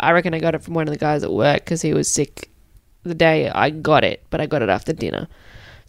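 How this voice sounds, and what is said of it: Sick, rough-sounding voice. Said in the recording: “I'm a bit sick. Sorry about the noise that my voice is making today. ... I just sound like shit.”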